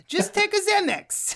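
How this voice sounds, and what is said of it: Imitates another person's voice. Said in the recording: “my Udo Kier impression”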